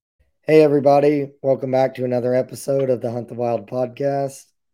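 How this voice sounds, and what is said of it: Weak, strained voice. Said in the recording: “don't mind my voice ... I seem to be losing my voice and can't seem to recover from it”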